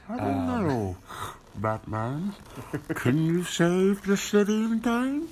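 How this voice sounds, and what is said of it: Imitates the villain Bane's voice. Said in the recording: “pretty good Bane impersonation”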